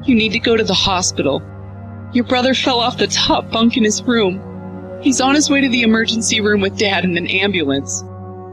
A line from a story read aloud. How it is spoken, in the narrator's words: my mother said as sobs broke through her voice